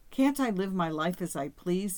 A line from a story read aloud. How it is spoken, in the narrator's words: said Yvonne